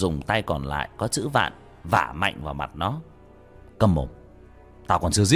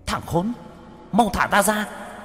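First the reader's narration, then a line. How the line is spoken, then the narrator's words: Hateful child's hiss. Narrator (Vietnamese): Đứa bé mặt mày dữ tợn, căm thù, rít lên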